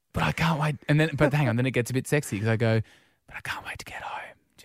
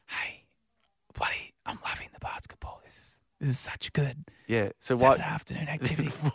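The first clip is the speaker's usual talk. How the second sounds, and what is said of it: Whispered speech. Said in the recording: “why would you whisper that then?”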